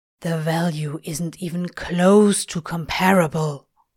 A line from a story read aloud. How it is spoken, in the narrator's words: Crowley hisses